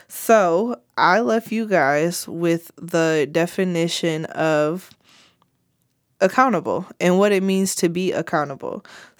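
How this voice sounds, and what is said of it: Voice rough from a cold. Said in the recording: “I caught a cold from being outside ... My voice isn't all the way together”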